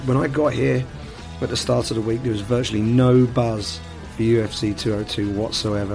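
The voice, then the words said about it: Hoarse, worn-out voice. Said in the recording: “As you can probably tell from my voice, this week has taken its toll. I'm not only knackered, my voice is in pieces.”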